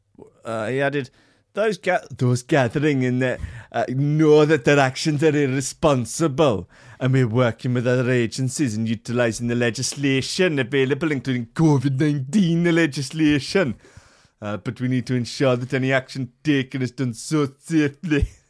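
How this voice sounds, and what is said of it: Weak put-on Welsh accent. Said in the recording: “It's just not a strong point of mine, the Welsh accent, I will say... It's just bordering Geordie.”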